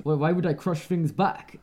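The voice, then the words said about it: Poor impression of a character voice. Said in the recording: “Terrible impression.”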